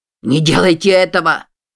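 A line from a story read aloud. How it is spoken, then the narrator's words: Furious red-faced shout. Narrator (Russian): закричал Джексон, наливаясь кровью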